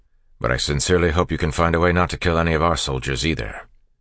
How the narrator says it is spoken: Kelsier said curtly

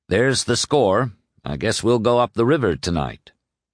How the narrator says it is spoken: Farragut said calmly

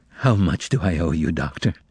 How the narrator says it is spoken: the bartender asked in a soft, trembling voice

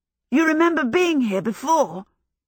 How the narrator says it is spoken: Michael asked excitedly

